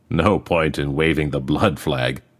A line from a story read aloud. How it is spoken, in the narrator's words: Boy laughed